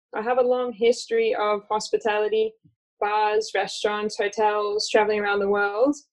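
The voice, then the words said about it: Hybrid American-Australian accent. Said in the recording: “I'm originally from the US, although I confuse people with my hybrid Australian accent.”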